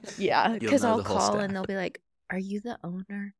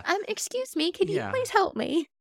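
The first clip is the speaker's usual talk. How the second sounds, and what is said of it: Sweet, polite teacher voice. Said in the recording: “you sound like adorable on the phone ... nice little teacher voice”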